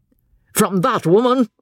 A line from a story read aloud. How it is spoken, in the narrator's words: said Osborne, fiercely